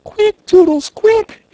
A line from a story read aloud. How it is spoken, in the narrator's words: she screamed